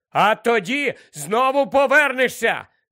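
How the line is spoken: Shouted after her. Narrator (Ukrainian): крикнув він їй навздогін

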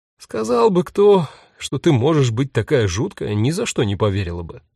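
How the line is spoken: Sighing. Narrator (Russian): вздохнула Юта

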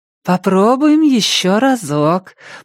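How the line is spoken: Cooing. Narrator (Russian): проворковала она

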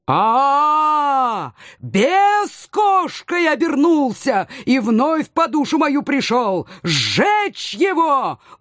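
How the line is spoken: Uncontrolled wild howl. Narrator (Russian): Уже абсолютно неуправляемо взвыл царь

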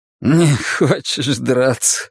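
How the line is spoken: Laughing. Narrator (Russian): рассмеялся Соа

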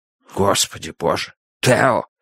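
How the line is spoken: Stunned, forced out. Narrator (Russian): выдавил Хобби, ошарашенно помолчав

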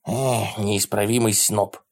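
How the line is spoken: Muttering. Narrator (Russian): пробормотал Ларри

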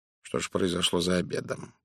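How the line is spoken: Muttered. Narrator (Russian): пробормотал он

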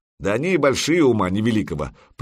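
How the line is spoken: Grumbling. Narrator (Russian): проворчал кто-то из хирдманов

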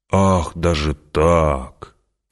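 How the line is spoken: Mocking drawl. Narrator (Russian): протянул император, и барон ясно услышал насмешку в его голосе

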